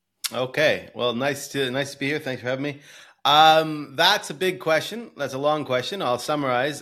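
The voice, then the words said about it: Non-European accent. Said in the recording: “as you can tell by my accent, I'm not European”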